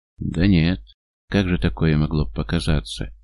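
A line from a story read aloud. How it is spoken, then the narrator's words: Uncertain drawl. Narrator (Russian): неуверенно тянет он, как бы стараясь договориться с самим собой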